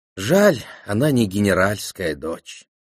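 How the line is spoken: Sighing. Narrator (Russian): вздохнула Хелена

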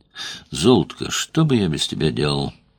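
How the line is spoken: Mutter. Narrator (Russian): пробормотал Петр

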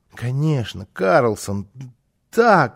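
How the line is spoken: Child's excited stammering babble. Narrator (Russian): залепетал малыш, заикаясь от волнения

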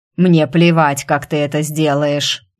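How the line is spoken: Angry, near growl. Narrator (Russian): Едва не рыча, зло заявил Царк

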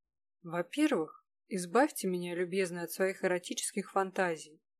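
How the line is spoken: Lazy, very calm. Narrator (Russian): лениво и очень спокойно заговорил наконец Кирилл

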